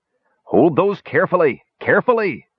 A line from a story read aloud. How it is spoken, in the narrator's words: Flint bellowed